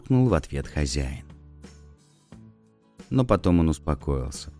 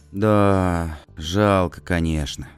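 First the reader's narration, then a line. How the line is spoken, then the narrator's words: Sighing. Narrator (Russian): вздохнул Пэтсон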